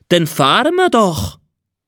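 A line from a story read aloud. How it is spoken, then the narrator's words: Called out. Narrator (German): rief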